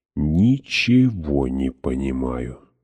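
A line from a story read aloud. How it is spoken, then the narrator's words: Mumble. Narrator (Russian): пробормотала я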